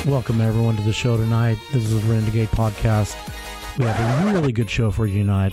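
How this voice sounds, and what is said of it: Sick, unwell-sounding voice. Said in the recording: “I'm sorry about my voice. I've been sick, trying to get over a little bug.”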